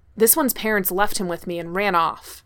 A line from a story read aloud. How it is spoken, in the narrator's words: the man exclaims